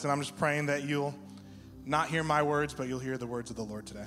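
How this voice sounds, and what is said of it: Slightly shaky, nervous voice. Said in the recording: “Sorry if my voice is a little shaky. I'm like slightly nervous”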